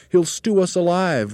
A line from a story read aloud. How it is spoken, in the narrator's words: wailed a second